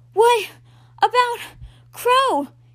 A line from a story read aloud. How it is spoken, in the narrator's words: He sputtered through each knife-stabbing breath, barely getting the words out